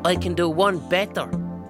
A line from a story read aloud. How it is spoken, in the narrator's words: I roar at him